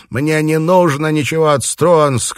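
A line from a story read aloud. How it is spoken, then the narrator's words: Shouting. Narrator (Russian): кричал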